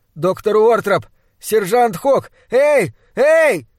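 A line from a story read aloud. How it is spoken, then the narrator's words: Weak muffled, then loud shout. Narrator (Russian): Мой голос прозвучал слабо и глухо, как крик раненого лесного животного, и поэтому я закричал громко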